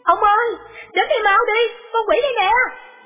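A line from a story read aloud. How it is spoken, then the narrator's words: Woman's alarmed cry. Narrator (Vietnamese): cô vợ trông thấy nhận ra nó, lập tức la lên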